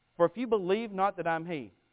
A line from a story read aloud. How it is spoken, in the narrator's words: He says